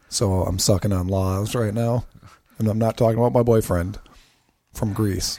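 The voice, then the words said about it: Rough, hoarse voice. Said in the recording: “my voice is rough”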